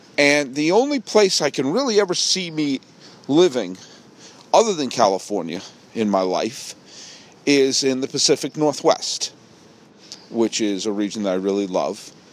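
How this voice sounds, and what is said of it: New England accent. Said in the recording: “I'm a native New Englander, and you probably hear it in my voice.”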